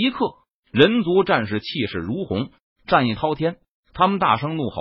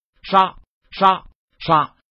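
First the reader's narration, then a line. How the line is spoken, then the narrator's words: Loud proclamation. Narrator (Chinese): 陈宇大声的宣布道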